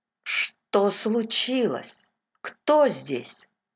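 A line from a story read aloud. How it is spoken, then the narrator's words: Trembling voice. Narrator (Russian): Треффи дрожащим голосом спросил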